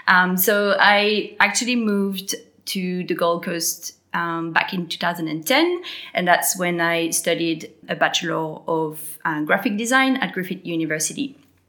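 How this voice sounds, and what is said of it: French accent. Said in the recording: “I have a French accent”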